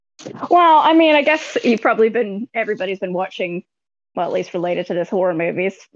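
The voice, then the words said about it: Rough-sounding American accent. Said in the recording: “my accent just makes everything sound rough ... I kind of like American accents”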